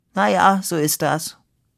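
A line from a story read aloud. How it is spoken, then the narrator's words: Rusty voice, after pause. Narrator (German): konstatierte nach einer Pause mit verrosteter Stimme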